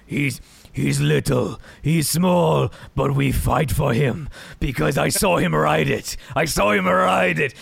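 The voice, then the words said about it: Put-on wildling accent. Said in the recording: “Your wildling accent is preferable to your Scottish accent”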